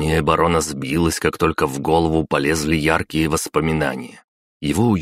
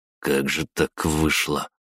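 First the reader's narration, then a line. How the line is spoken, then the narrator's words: Frightened mutter. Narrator (Russian): пробормотал Шраер, испуганно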